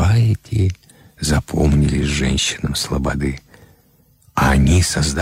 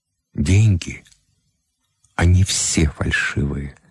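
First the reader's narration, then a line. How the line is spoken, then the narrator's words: Calm. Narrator (Russian): спокойно отвечал Кривой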